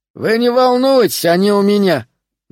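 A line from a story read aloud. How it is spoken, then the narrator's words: Loud reply. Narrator (Russian): громко ответил Игорь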